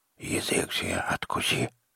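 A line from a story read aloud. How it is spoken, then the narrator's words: Quiet toothless mumble in ear. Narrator (Russian): негромко прошамкал один из них мне в ухо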